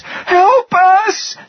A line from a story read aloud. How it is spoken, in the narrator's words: screamed again